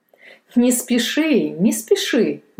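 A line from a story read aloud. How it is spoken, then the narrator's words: Father laughing. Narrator (Russian): засмеялся отец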